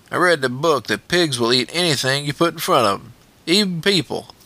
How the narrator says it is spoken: Wolf, pinching his nose against the stench, said, nasal and squeaky

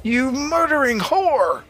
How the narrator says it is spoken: Brenner screamed

